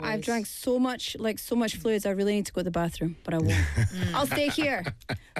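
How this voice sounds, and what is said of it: Hoarse, scratchy throat. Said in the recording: “throat is wata gata. You can hear it, right? ... It's a little bit back and forth ... this the little thing in your throat, it gives your throat character ... It's my sexy voice ... it gets scratchy”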